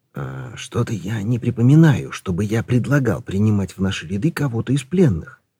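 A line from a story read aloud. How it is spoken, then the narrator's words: Quiet. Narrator (Russian): тихо сказал он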